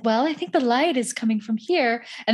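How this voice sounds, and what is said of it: Transatlantic movie-star accent. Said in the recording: “she speaks like this fucking transatlantic accent movie star”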